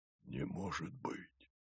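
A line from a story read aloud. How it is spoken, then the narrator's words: Whispered. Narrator (Russian): прошептал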